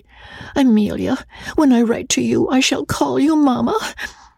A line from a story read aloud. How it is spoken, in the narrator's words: said wistfully